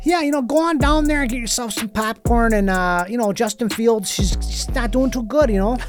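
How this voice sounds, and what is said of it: Put-on Chicago accent. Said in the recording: “this is my Chicago accent. I got talking Chicago... It's weird to hear you say that in the Chicago accent.”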